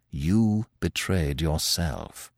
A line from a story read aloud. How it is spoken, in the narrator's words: said Manfred quietly